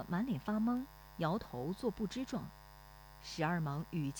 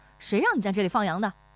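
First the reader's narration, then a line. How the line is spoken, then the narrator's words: Angry scolding. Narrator (Chinese): 徐二忙怒气指责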